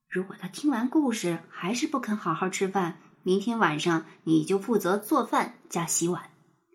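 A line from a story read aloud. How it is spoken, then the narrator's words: Soft whisper. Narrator (Chinese): 妈妈说着，又凑到爸爸的耳朵边，轻声的说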